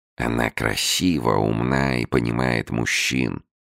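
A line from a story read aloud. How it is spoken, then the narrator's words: Mumbled imitation. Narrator (Russian): пробормотал он, подражая Беллами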